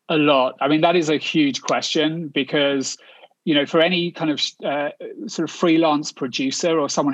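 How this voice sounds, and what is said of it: British accent. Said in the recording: “you can tell from my accent, I'm not a Yank, I'm a Brit”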